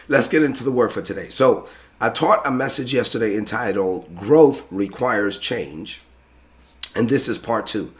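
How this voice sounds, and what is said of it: Strained, weakened voice. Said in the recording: “you can tell that my voice is not completely there”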